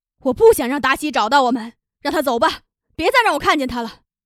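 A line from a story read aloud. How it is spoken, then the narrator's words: Loud shouting. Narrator (Chinese): 玛利亚 大声的喊着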